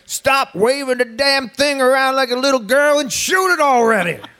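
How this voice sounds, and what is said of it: Put-on Texan accent. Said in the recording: “In his beautiful Texan accent”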